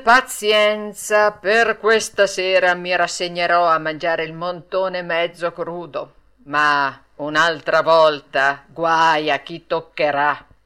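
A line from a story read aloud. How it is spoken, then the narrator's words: Sighing reply. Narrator (Italian): rispose Mangiafoco, poi soggiunse sospirando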